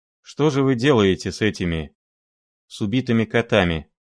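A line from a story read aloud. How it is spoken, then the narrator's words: Muffled mechanical question. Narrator (Russian): спросил, глухо и автоматически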